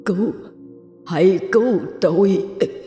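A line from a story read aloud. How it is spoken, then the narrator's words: Weak, dying cry. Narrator (Vietnamese): tiếng kêu cứu của người đàn ông kia bằng chất giọng rất yếu, giống như sắp chết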